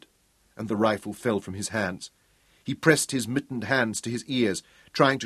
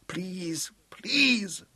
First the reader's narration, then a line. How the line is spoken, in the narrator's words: Mark pleaded aloud